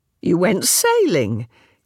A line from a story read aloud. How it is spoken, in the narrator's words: Caro exclaimed